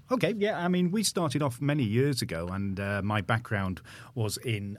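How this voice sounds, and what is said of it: Manchester English accent. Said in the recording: “You sound like you have the same accent as me... Yeah, very, very similar. Yeah, we're from Manchester.”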